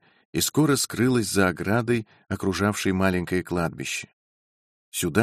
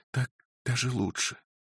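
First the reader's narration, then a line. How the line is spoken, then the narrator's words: Whisper. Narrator (Russian): прошептала она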